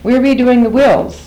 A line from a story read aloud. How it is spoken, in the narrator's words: Janice reported cheerfully over the din